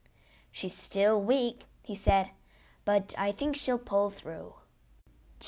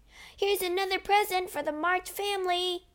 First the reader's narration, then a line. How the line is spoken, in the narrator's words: he cried